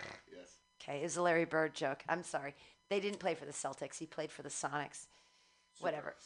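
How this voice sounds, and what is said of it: Usual voice. Nothing is said of it.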